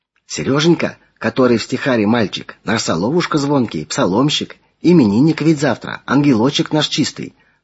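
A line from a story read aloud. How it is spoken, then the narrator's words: Whispered. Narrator (Russian): шепотом пояснила Клавдия Ивановна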